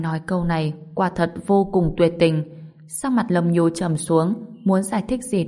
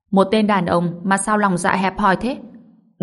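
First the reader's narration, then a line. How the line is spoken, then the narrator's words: Angry. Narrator (Vietnamese): Chú Mỹ tức giận nói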